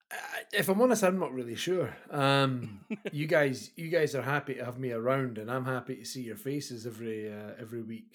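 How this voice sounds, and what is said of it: Scottish accent. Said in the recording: “your lovely Scottish accent ... I bring an accent”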